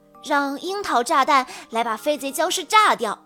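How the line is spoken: Shouting in unison. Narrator (Chinese): 植物射手们一起叫道

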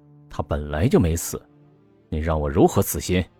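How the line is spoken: Cold. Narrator (Chinese): 魏子昂冷冷的说

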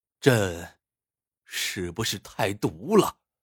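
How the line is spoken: Long sigh, near tears. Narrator (Chinese): 皇帝长叹一声，眼圈发红道

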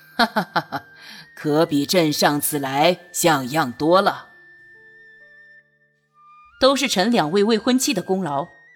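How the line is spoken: Laughing emperor. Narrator (Chinese): 皇帝……笑道

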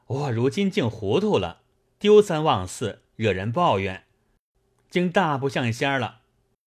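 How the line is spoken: Smiling. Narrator (Chinese): 贾琏含笑道

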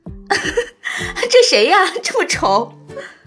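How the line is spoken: Laughing loudly. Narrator (Chinese): 丛小姐就大笑

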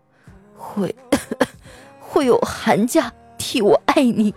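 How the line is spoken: Low slow hoarse dying voice. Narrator (Chinese): 暑假先生去世前，用一个低沉而缓慢的沙哑声音对我说

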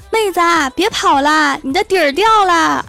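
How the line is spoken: Gentleman ghost shouting. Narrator (Chinese): 鬼啊是一个绅士，就在后面追着妹子喊

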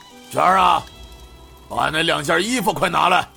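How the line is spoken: Sighing, calling out. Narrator (Chinese): 刘老板叹了一口气，又向后屋喊道

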